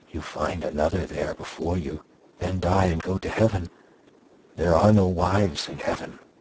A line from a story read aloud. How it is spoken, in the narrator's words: added, whispering